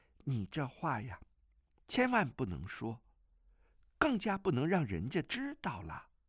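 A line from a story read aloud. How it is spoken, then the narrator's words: Sighing. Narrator (Chinese): 钟灵叹了口气道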